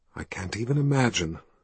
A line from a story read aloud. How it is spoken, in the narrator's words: she whispered back